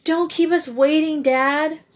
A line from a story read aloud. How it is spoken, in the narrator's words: pleaded Joe